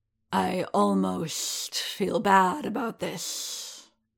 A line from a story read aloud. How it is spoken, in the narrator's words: said the Trandoshan, drawing out his words in the characteristic hissing rasp of his species